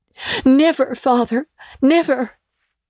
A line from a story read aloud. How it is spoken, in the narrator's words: cried they all